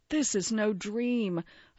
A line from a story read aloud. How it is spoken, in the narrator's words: a semi-conscious Rosemary cries